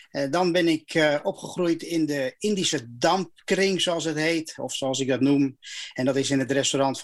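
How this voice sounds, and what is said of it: Clear Amsterdam Dutch accent. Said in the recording (Dutch): “In jouw stem klinkt geen Indonesisch accent, maar wel heel duidelijk een Amsterdams accent”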